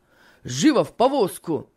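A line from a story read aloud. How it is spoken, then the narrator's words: Shouting. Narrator (Russian): крикнул Финиас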